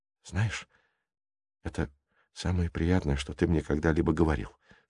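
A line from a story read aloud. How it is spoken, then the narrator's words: Whispered. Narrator (Russian): шепнула она ему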